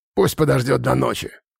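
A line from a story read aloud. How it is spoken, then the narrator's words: Snorting. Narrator (Russian): фыркнул Хум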